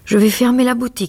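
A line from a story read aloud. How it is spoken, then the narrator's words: Exaggeratedly calm exclamation. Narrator (French): s'écria Harry avec un sang-froid exagéré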